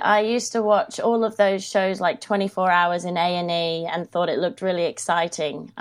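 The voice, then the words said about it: Australian twang. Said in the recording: “I hear the twang and I know you are Australian.”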